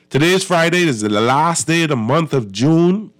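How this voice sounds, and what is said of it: Congested sinus-affected voice. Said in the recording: “my voice sounds a little different. I got this little sinus thing”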